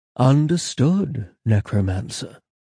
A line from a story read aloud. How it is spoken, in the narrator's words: Baptiste replied with a purr, smiling